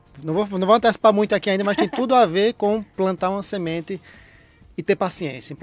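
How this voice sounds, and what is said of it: Paraíba Brazilian Portuguese accent. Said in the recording (Portuguese): “sotaque vem de onde? ... Paraíba.”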